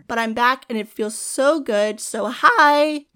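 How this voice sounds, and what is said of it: Voice cracks. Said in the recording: “did my voice crack like that?”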